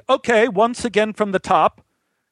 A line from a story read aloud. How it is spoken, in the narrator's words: in a loud voice said